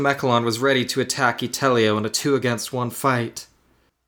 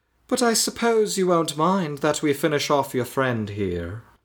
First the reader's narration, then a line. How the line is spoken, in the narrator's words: Itomechalon said in his posh voice